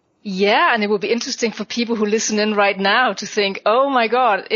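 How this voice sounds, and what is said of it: Danish accent often mistaken for South African. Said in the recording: “your accent mistaken for a South African accent ... I'm actually Danish”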